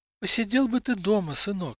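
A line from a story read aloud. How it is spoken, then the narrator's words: Sighing. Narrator (Russian): вздохнула Инала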